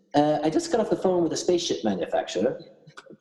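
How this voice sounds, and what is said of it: Put-on English accent. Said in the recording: “Pardon my English accent.”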